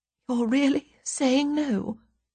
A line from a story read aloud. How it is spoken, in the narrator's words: she says at last, her voice cracking as though with emotion